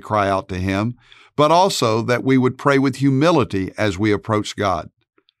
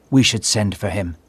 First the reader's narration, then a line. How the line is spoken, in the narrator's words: Mary whispered